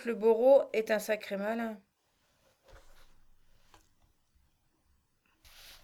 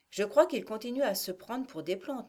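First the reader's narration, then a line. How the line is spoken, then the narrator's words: Young man murmuring. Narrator (French): murmura le jeune homme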